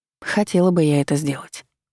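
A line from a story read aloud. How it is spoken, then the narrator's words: Sighing reply. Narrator (Russian): вздохнула в ответ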